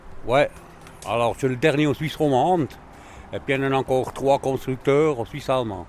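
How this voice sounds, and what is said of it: Slight Swiss German accent. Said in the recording (French): “J'entends un petit accent. Euh, vous êtes d'origine suisse-allemande vous-même”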